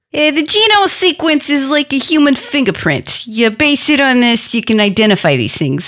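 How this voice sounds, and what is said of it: Chinese accent. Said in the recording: “Beautiful Chinese accent.”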